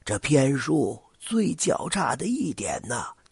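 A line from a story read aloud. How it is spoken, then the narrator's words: Old man sighing. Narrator (Chinese): 老者叹了口气说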